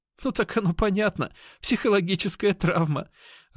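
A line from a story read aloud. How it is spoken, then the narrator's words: Laughing loudly. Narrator (Russian): расхохоталась Кошкина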